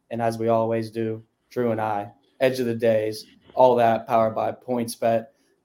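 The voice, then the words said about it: Slightly raspy voice. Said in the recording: “My voice is a little raspy, if you could tell ... I was at a Bad Bunny concert last night”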